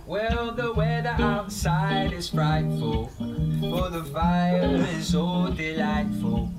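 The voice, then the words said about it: Croony transatlantic singing accent. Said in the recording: “What's the accent? ... It's like transatlantic. ... Because it's a bit croony, isn't it?”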